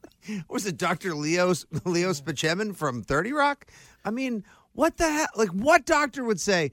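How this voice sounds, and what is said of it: Usual voice. Nothing is said of it.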